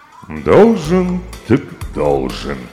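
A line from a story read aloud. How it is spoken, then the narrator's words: Sad king. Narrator (Russian): грустно проговорил король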